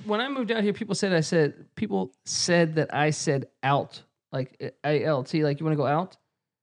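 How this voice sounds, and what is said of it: Northern Virginia accent. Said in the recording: “You got Northern Virginia accent”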